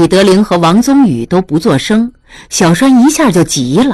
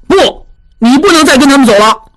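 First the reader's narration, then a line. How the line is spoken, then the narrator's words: Calling out. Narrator (Chinese): 小栓叫道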